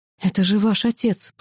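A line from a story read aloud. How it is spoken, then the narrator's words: Shocked gasp into shout. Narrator (Russian): потрясенно выдохнула и сорвалась на крик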